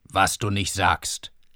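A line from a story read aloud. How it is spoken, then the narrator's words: Mocking reply. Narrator (German): erwiderte Schulze spöttisch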